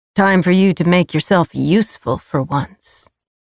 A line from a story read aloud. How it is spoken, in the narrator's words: he said